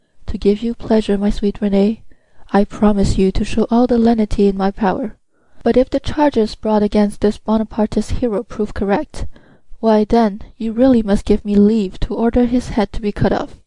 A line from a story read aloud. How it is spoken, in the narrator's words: said tenderly